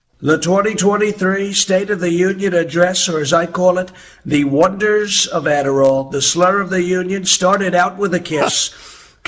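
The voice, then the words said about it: Very good Donald Trump impression. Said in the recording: “a Trump impersonator ... a person doing a Trump impersonation because it's really good”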